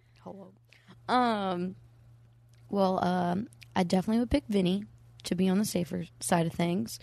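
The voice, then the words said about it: Imitates another person's voice. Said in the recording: “your Rob impression”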